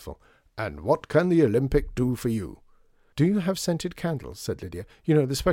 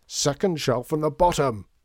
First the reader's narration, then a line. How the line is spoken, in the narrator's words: shouted Mr